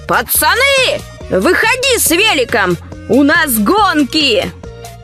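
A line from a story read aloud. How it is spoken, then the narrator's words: Shouting. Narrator (Russian): закричал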